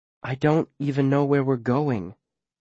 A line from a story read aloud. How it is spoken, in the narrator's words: she says, also quietly